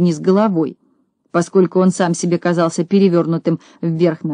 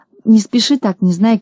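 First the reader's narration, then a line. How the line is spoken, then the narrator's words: Pleading. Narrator (Russian): взмолился Пончик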